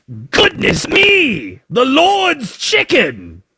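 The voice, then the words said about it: Put-on Australian or English accent. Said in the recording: “I can't do any other accent. They're all going to sound Australian or English. Some combination of the two.”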